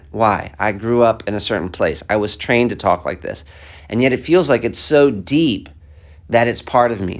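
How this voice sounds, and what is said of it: American accent. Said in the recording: “I have this American accent”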